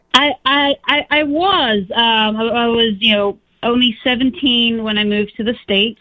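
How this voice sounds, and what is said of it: Faint remnant of English accent. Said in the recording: “You have a lovely accent. You're all the way from England ... I have a remnant of an accent left”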